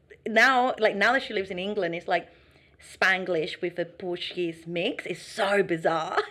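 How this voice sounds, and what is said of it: Mixed accent with Australian slang. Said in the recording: “why do you have this weird Australian, you know, slangy accent? ... your accent is a bit mixed”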